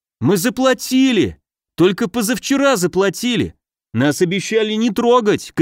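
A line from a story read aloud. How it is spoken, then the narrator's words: Shouting. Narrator (Russian): кричал он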